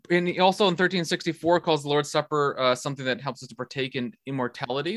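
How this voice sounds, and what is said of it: Dutch accent. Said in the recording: “Because I'm from the Netherlands, that's how I talk. Even though it's the worst accent in the world. ... I find something endearing about the Dutch accent.”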